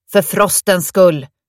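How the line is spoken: Shouting. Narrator (Swedish): ropade Victory igen

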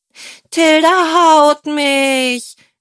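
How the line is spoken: Whimpering. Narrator (German): wimmerte Berenike

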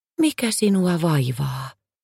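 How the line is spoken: Gentle question. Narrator (Finnish): Päivänpaiste kysyi lempeästi

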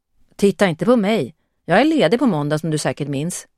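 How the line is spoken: Plain. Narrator (Swedish): sa hon

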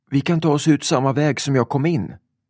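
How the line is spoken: Shouted. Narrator (Swedish): ropade Lisa

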